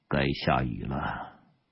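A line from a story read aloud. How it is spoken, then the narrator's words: Soft. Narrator (Chinese): 邓天一 轻声说了一句话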